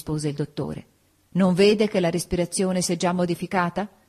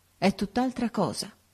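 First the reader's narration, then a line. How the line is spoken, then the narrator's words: Murmuring. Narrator (Italian): mormorò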